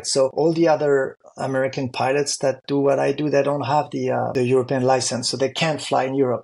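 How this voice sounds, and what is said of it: French accent speaking English. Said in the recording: “I'm also French in addition to be American, even if my accent is not really American”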